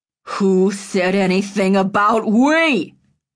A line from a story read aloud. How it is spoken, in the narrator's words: Roy roared